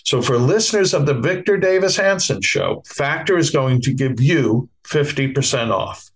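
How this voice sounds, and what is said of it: Bronx accent. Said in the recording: “I have a Bronx accent”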